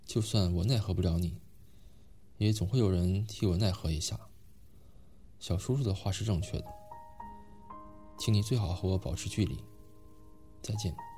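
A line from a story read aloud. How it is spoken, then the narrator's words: Cold. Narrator (Chinese): 韩青再次冷冷开口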